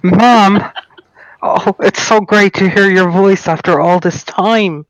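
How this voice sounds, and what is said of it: Irish accent. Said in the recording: “you sound Irish ... You sound Irish.”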